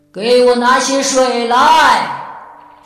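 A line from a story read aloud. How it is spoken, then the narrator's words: Loud answer. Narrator (Chinese): 原野大声回答说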